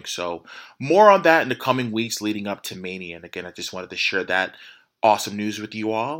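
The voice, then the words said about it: Excited voice. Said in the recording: “I'm sure you can hear it in my voice. Excitement is an understatement.”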